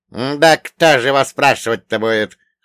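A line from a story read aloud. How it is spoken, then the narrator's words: Snorting. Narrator (Russian): хмыкнул Акинфей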